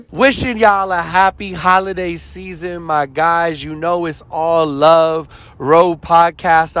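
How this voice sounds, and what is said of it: Los Angeles accent. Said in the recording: “the LA accent”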